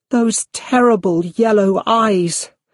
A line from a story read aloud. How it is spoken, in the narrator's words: Her face was white, and she cried out